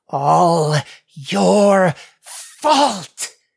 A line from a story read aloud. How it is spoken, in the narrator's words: she growled through clenched teeth